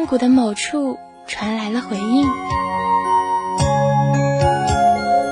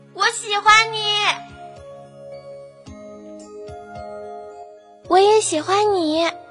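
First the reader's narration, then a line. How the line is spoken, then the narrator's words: Loud, desperate shout. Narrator (Chinese): 大声的，几乎是绝望的喊道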